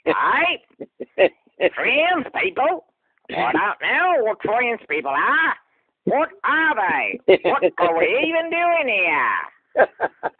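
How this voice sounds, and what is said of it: Put-on Australian accent. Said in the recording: “do all of his comedy in an Australian accent ... You nailed it.”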